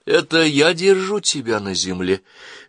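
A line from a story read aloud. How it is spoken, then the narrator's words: Silky, insinuating. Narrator (Russian): заговорила она вкрадчиво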